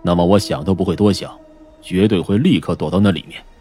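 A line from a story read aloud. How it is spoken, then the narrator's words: Deep low voice. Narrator (Chinese): 疯子沉声说道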